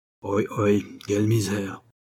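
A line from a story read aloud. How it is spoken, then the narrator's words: Sighing man. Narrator (French): soupire le juif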